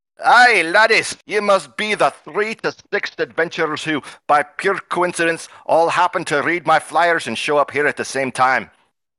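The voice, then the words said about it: Cranky dwarf, bad Scottish accent. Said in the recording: “a cranky dwarf with red hair that speaks in a bad Scottish accent”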